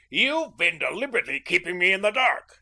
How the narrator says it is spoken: he shouted

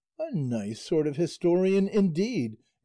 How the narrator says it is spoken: exclaimed Sancho at this

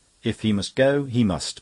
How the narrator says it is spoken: put in Mary firmly

